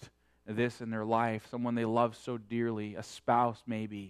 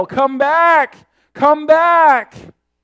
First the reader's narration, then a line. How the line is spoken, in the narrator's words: heart-rending wail is filled with despair, with only the mocking echoes to underscore its sad frustration